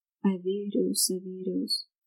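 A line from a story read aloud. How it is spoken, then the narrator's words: Low mutter. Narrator (Russian): вполголоса пробормотал Шерион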